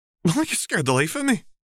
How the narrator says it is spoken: she gasped

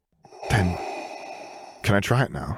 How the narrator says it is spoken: he asked nervously

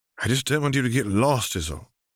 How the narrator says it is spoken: sighed Roger

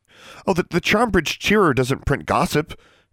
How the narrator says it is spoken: she stammered

